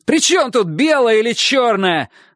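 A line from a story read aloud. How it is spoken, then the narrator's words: Yelling. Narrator (Russian): заорал Чик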